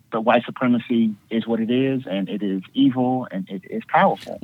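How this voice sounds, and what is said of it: Slight Southern American twang. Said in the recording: “I heard that little Southern twang.”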